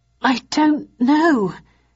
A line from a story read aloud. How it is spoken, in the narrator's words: stammered in reply